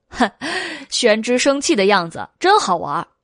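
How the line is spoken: Laughing. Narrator (Chinese): 韦燕笑道

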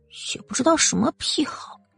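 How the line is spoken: Reluctant mumble. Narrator (Chinese): 不情愿的嘟囔

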